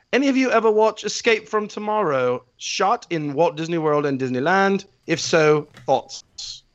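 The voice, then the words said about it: Reads in a put-on accent. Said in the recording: “I'll do it in my accent.”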